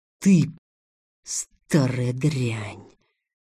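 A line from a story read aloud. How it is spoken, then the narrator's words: Whisper. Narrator (Russian): прошептал Илья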